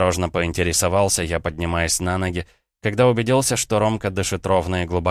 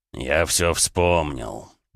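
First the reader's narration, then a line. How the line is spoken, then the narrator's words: Groaned. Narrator (Russian): простонал Эд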